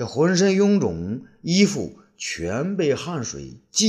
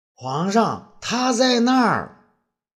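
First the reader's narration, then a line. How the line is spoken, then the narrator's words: Exclaiming. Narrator (Chinese): 武帝不由得叫道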